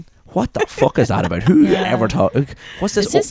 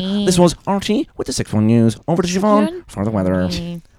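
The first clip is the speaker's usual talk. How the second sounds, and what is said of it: Irish TV newsreader intonation impression. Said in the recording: “the most, like, RTE Radio 1 news or even just, like, TV, like, 6-1 news sentences ... It's always that weird intonation ... That was a very good impression.”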